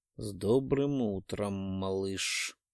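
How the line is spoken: Sinister drawl. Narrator (Russian): тяну зловещим тоном

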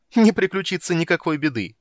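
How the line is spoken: Laughing. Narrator (Russian): рассмеялась Иенна

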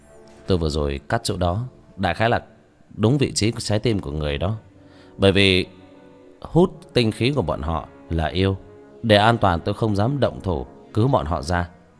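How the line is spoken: Dry, scornful laugh. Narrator (Vietnamese): Vương Quân Diệt cười nhạt

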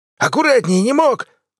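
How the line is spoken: Angry bark, old man. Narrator (Russian): злобно рявкнул старик

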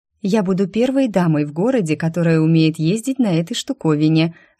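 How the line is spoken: Joyful, proud. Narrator (Russian): радостно и гордо произнесла Екатерина

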